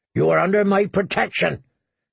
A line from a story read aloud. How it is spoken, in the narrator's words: said, her voice so thick with anger that it was almost a growl